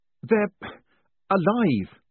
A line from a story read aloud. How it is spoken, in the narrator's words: he gasped